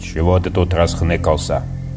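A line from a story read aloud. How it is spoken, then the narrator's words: Menacing question. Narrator (Russian): вопрошает грозно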